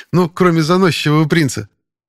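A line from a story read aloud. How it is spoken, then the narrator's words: Snort. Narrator (Russian): хмыкнул Пашка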